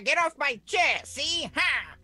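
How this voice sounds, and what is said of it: Put-on gangster voice. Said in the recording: “appreciate that accent? ... I'm trying to do a gangster voice”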